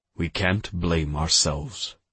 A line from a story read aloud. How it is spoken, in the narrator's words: I said